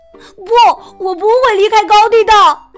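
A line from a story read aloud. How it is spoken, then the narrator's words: Loud shout. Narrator (Chinese): 富兰克林大声喊着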